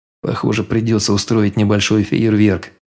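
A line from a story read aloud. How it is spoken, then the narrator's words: Muttered. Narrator (Russian): пробормотал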